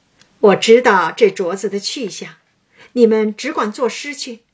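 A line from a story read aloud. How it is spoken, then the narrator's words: Laughing. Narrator (Chinese): 凤姐儿笑道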